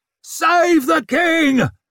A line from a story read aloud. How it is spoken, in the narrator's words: he roared over his shoulder